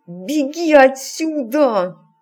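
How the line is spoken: Command through gritted teeth. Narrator (Russian): сквозь зубы скомандовал Саймон

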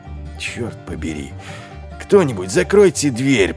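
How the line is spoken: Growl. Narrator (Russian): прорычал Ваймс

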